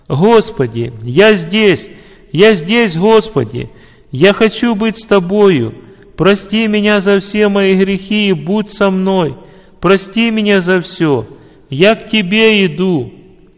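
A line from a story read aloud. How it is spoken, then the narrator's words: Loud prayer. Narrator (Russian): Николай громко стал молиться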